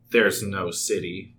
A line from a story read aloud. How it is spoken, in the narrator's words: Jake mutters